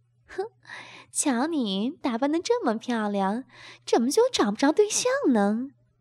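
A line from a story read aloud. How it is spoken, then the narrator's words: Laughing. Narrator (Chinese): 吴敏笑着说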